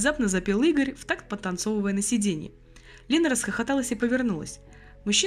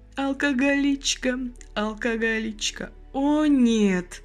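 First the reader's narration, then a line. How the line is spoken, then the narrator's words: Girl's moan. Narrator (Russian): простонала девушка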